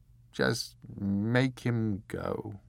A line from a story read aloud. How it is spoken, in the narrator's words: said the Earl